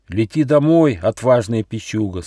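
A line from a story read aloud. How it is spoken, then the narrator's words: Plain. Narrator (Russian): сказало солнце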